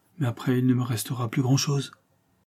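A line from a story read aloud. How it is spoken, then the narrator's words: Whispered. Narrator (French): murmura le majordome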